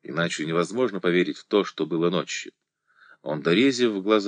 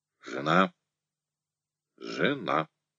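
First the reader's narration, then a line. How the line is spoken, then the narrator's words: Quiet, fearful. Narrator (Russian): мысленно произнес он, а потом негромко и боязливо сказал вслух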